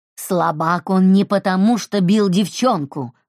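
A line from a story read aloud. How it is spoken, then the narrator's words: Growling. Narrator (Russian): рычала она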